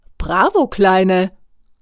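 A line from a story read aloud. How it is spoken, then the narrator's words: Man calling out. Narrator (German): ruft ein Mann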